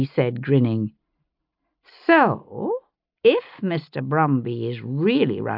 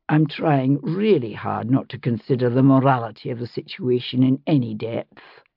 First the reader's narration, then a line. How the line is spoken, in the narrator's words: he said dryly